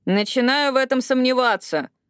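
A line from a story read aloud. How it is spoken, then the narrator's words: Grumbling. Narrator (Russian): буркнула Эшли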